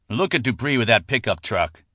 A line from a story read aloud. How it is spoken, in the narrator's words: John Harden sneered